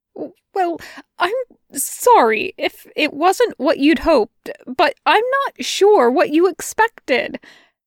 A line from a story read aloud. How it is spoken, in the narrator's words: he stuttered out finally, feeling like an idiot